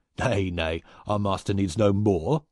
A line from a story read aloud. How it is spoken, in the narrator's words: cried one with a hoarse laugh